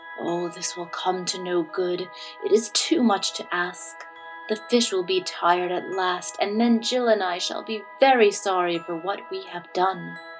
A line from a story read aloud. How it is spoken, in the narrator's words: Jimmy was forced to go, and he muttered as he went along